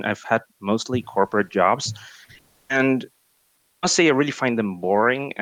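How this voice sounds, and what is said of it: Non-native English accent. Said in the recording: “Sorry if my accent ... English is your second language ... You're you're quite clear and fluent”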